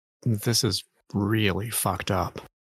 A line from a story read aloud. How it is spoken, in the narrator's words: mutter